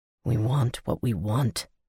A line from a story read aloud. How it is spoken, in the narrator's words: he whispered